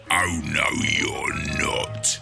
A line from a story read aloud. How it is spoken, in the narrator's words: he hissed